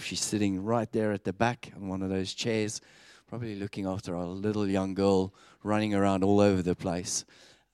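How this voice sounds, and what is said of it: South African accent. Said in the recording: “I'm a South African. You've probably picked that up in my accent.”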